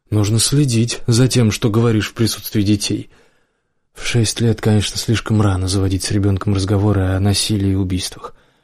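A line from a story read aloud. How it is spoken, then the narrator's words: Sighing. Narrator (Russian): вздохнула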